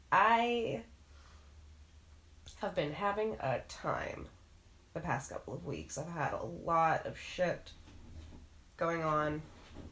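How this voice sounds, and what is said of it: Wonky, sick-sounding voice. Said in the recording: “I'm sure my voice sounds wonky because I've been sick and I'm coming off of it”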